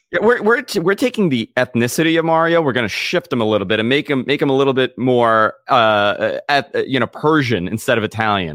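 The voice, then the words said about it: Heavy New York Queens accent. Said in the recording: “my terrible heavy New York Queens accent”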